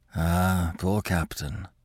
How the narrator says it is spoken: he murmured

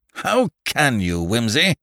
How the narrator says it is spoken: growled Parker reproachfully

